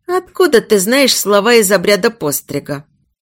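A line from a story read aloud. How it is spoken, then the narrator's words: Expressive snort. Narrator (Russian): Эйд выразительно хмыкнул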